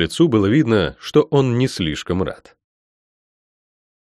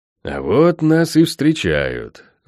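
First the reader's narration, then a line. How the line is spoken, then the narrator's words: Through gritted teeth. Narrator (Russian): процедил магистр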